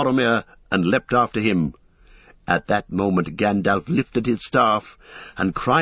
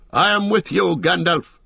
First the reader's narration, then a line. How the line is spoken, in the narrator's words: he shouted